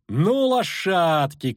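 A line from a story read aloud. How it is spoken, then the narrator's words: Shout. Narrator (Russian): крикнула Искра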